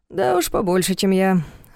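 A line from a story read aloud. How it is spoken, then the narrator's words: Sighing. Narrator (Russian): вздохнул Дементьев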